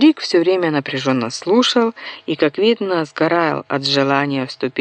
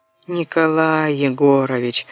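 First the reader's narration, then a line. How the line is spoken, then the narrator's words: Moaned. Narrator (Russian): простонал Бося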